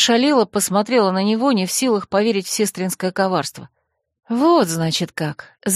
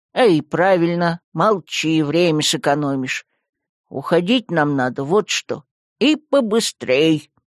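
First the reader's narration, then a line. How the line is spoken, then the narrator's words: Growled. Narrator (Russian): рыкнул посох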